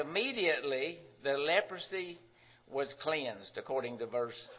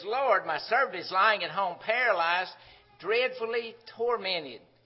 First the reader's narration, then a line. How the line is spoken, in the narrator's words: He's pleading with him, says